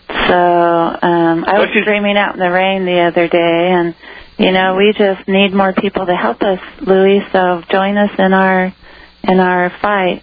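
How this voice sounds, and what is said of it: Hoarse, strained voice. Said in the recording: “I'm screaming so loud I'm losing my voice.”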